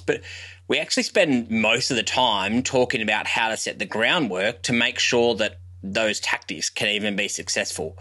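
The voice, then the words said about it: Harsh Australian accent. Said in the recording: “my harsh Australian accent”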